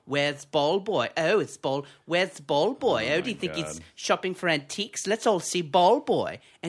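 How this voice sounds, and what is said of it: Mocking effeminate voice. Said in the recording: “do a gay voice”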